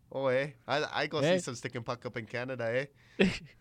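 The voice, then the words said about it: Put-on Canadian accent. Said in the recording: “I have a pretty good Canadian accent.”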